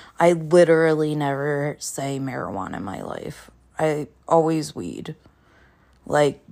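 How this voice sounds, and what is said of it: Usual voice. Nothing is said of it.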